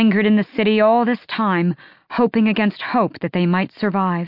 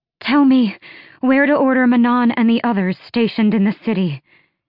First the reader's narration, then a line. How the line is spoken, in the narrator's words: she said, panting hard